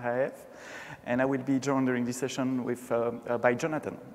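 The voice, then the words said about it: Slight French accent. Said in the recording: “speaking French usually. Maybe you heard that already, a slight touch of French accent”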